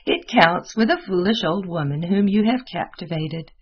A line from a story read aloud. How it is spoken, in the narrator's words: replied Mademoiselle with her wriggling laugh